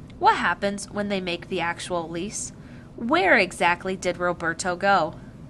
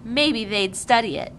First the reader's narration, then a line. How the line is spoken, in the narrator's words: Jonas said shyly